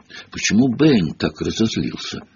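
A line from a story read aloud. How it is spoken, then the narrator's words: Whispered. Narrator (Russian): шепнул он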